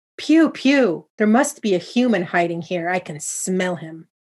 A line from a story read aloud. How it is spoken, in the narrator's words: exclaimed, sniffing the air, her nose wrinkled in disgust